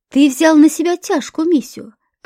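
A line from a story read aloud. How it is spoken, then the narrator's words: Old man's sigh. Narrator (Russian): вздохнул первый старик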